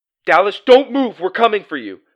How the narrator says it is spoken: shouted Doug

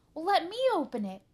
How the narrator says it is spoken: shouted Buster

